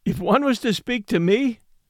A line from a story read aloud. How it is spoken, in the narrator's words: laughed Lou